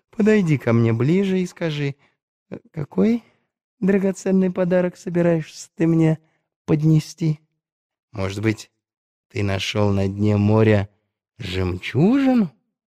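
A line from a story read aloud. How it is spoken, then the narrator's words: Friendly voice. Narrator (Russian): сказал он приветливым голосом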